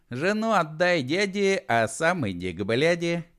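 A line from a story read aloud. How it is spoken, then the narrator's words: Giggling. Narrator (Russian): хихикнул Матушкин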